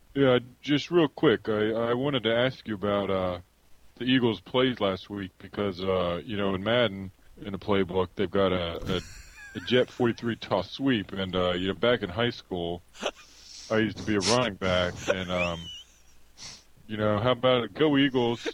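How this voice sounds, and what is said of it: Exaggerated Philadelphia accent, sports caller. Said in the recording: “the terrible Philly accent, and then all the idiot Philly callers”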